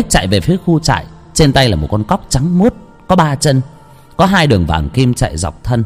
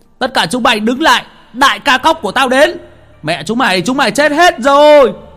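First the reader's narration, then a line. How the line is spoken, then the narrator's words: Shout. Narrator (Vietnamese): một tiếng hét vang lên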